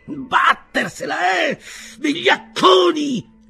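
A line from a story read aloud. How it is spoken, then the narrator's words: Louder shout. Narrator (Italian): gridò più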